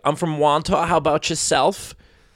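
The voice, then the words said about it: Put-on Long Island Wantagh accent. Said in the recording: “people who talk like ... that. ... That was a Wantagh accent.”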